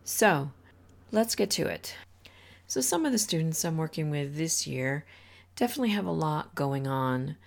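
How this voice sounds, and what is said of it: Slightly hoarse voice. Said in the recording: “I'm trying to get over a cold, so my voice is definitely a bit hoarse.”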